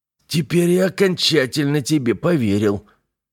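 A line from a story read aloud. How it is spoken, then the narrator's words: Hoarse rasp. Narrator (Russian): прохрипел Скотт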